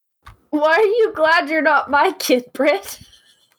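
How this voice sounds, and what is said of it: Stern, scolding mom voice. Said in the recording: “That is some terrifying mom voice you're using there.”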